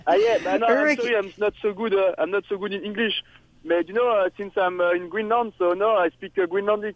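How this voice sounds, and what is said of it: Non-native English accent. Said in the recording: “she's just fluttering with your accent here. She loves your accent.”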